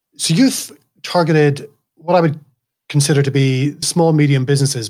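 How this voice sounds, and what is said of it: Mixed Irish Scottish accent. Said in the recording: “my Irish, Scottish accent as well. It's a bit of time in America, some time here in Australia, my accent is pretty crazy.”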